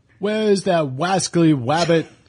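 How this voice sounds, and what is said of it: Elmer Fudd cartoon voice impression. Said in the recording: “Thank you, Elmer. ... Not my best impersonation.”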